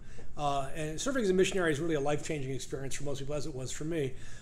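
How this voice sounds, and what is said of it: Fast-talking New York accent. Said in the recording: “I grew up in New York. Uh, you could probably tell that because I don't speak with a southern accent and I speak English fast.”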